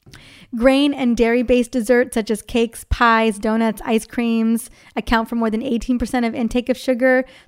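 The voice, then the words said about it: Slightly harsh, worn-out voice. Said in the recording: “my voice sounds a little harsh, it's because we were doing big time dance parties earlier today and my voice ran out”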